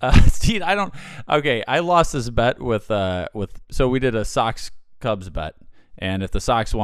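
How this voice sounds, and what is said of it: Usual voice. Nothing is said of it.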